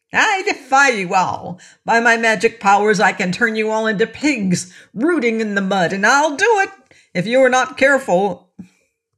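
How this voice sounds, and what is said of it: Scornful voice. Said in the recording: “in a scornful voice”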